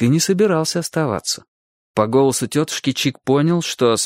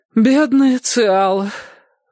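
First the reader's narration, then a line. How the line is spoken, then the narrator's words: Sighing. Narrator (Russian): вздохнула тетушка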